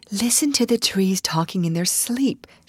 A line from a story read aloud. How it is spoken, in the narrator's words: whispered